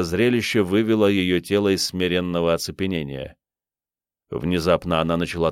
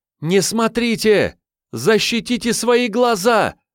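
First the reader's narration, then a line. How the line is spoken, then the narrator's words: Screaming at full strength, muffled. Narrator (Russian): Что есть мочи, закричала она, закрывая обеими руками собственное лицо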